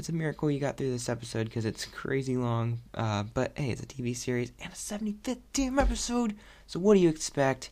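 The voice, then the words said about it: Hoarse voice. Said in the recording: “my voice is getting hoarse,”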